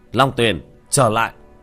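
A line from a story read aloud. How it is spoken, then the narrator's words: Shout. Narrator (Vietnamese): quát lên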